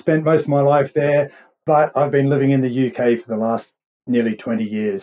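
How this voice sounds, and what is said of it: Mild Australian accent. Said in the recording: “your accent's a little different than mine ... I'm actually an Aussie, born and bred ... it's a pretty mild Aussie accent”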